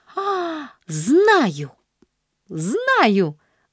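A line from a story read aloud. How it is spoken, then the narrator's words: Excited shout. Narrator (Russian): выкрикнула она возбужденно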